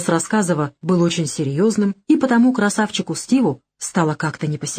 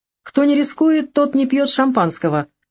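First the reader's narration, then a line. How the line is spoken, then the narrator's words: Good-natured boss's laughter. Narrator (Russian): благодушно рассмеялся шеф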